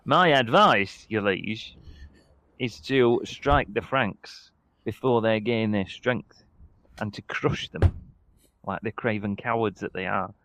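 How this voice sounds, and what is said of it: Put-on accent for a character. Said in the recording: “I have a different accent for this character every single...”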